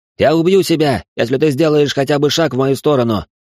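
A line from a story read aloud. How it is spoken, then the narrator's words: Shouted. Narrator (Russian): крикнул Алан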